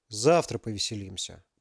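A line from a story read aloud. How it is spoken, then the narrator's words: Grumbled. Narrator (Russian): буркнул Максим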